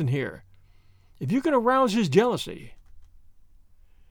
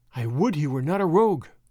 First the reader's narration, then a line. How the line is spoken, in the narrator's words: she sighed